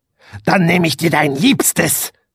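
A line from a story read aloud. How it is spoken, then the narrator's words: Witch hissing. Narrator (German): fauchte die Hexe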